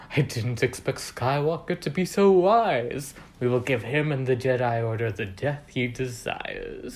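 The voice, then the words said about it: Imitates a film villain's voice. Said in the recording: “I'm doing his voice”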